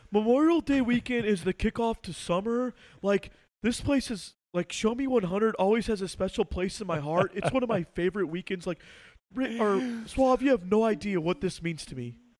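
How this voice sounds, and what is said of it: Imitates another person's voice. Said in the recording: “do an impression of me of what you think my intro for this show would normally be ... That's pretty good. That's pretty close.”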